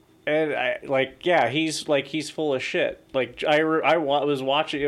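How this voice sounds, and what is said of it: Usual voice. Nothing is said of it.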